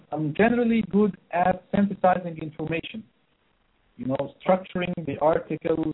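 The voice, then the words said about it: Non-native English accent. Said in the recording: “as you can feel from my accent, English is not my native language... It's my second language”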